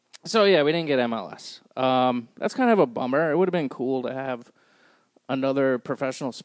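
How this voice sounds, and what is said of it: Usual voice. Nothing is said of it.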